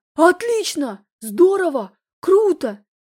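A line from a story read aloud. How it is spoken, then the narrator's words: Ecstatic shout. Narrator (Russian): Закричал он, придя почему-то в неописуемый восторг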